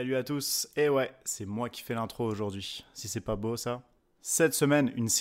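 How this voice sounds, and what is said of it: Usual voice. Nothing is said of it.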